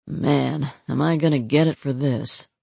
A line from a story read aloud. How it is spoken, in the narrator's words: He took a deep breath and let it out slowly, as he muttered